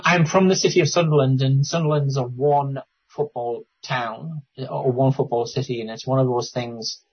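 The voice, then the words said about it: Northeast English accent. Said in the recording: “I assume you're from the northeast, from the accent”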